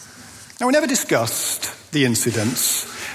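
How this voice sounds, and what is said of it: Usual voice. Nothing is said of it.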